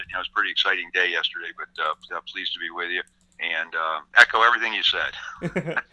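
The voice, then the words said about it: Hoarse, fading voice. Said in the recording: “losing my voice a bit”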